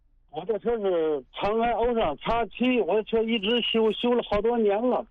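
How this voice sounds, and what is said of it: Regional Chinese accent. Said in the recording (Chinese): “哪里人呢？你这口音。”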